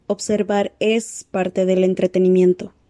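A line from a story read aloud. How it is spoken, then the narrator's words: Plain. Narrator (Spanish): dijo Bairún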